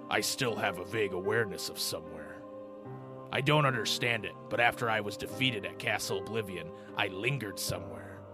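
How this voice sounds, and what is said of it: Imitates a video game character's voice. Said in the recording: “This might be a bad impression,”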